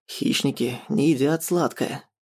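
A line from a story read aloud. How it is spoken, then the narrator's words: Quiet grumbling reply. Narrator (Russian): тихо ворчу в ответ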